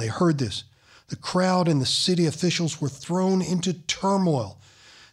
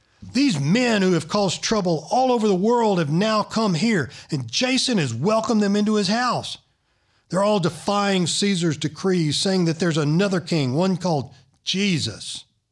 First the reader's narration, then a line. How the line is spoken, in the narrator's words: shouting